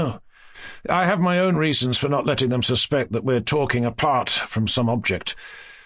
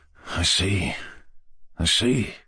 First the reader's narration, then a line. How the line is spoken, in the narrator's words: muttered Yevgeny Pavlovich with a faint smile